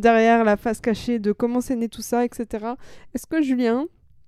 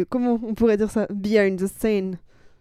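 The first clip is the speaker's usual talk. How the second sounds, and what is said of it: Clumsy English accent. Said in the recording (French): “j'ai fait un accent de merde.”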